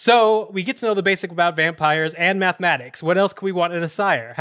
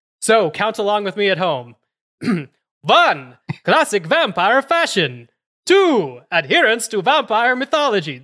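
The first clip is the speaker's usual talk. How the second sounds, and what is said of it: Bad Count von Count vampire accent. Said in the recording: “My accent's horrible.”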